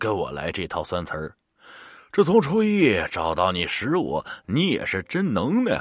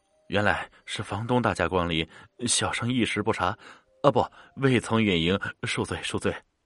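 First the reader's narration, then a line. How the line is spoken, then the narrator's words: Sighing, formal tone. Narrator (Chinese): 叹了口气，李道成 施礼道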